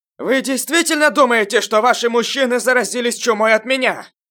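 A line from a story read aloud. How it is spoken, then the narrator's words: Loud amplified voice. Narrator (Russian): Громко сказал Июнь, при этом он усилил свой голос с помощью юаньци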